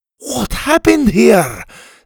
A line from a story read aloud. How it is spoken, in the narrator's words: Scotty cried